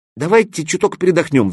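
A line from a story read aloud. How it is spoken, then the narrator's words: Pleading. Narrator (Russian): взмолился Гоха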